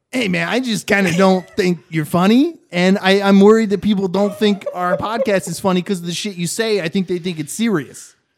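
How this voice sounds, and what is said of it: Impression of the co-host. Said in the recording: “I'll just do an impression. If you don't mind, I'll do an impression of you.”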